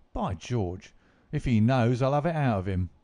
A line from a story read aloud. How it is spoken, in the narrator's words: cried Lestrade